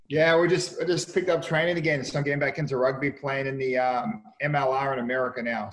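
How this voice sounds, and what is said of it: Australian accent. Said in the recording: “that Australian accent there you've not lost”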